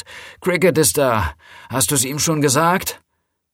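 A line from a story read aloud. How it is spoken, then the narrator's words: Calling into house. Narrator (German): rief sie ins Haus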